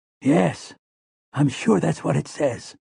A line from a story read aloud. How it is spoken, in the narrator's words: Callahan whispered back